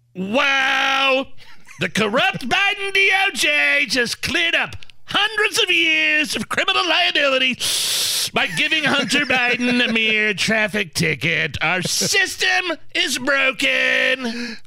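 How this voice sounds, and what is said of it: Imitates another person's voice. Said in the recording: “your awesome Donald Trump impression”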